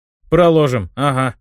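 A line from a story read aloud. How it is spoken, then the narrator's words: Smirking snort. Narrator (Russian): хмыкнул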